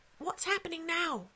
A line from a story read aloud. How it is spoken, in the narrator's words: whispered Joe